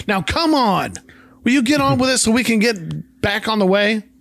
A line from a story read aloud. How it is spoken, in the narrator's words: Walter begins to yell